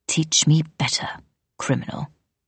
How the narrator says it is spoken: he said with a hiss

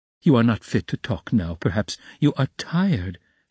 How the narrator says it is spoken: she added gently

